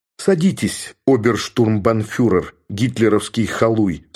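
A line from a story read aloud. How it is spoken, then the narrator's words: Plain. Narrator (Russian): сказал я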